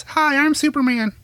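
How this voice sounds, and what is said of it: High-pitched cartoonish voice. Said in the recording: “I have a very high voice ... You sound like Mickey Mouse.”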